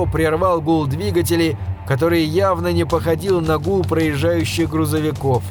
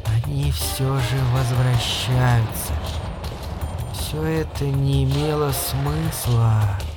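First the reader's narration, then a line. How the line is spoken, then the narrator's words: Whispered. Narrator (Russian): прошептала она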